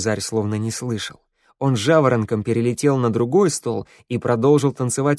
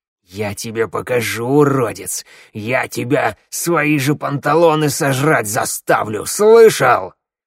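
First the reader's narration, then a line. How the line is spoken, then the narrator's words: Growling. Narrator (Russian): с рычанием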